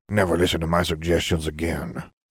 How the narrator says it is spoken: Salazar murmured

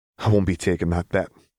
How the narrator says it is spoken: Minerva sighed

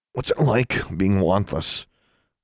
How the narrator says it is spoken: Alexandra asked in a choked voice

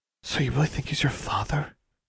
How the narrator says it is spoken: Anna asked in a whisper

